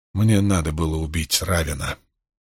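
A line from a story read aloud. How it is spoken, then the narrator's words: Quiet. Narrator (Russian): тихо произнес Ранд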